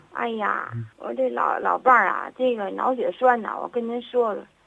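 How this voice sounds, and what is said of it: Tianjin regional Mandarin accent. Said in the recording (Chinese): “听您这口音，您是哪儿人呢？ ... 我一听您这口音就知道是天津人。”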